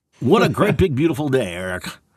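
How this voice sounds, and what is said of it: Booming radio announcer voice. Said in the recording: “Got a radio voice going on”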